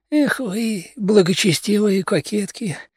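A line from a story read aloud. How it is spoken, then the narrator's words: Sigh. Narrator (Russian): вздохнул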